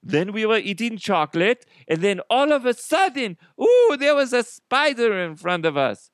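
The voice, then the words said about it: Attempted Swiss accent. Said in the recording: “I don't know how to do a Swiss accent. ... All you Swiss people are like, that is not how we speak.”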